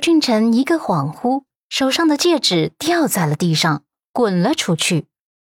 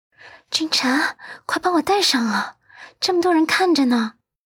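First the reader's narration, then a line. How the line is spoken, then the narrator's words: Impatient whispered urging. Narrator (Chinese): 温子星已经沉不住气了，忍不住小声催促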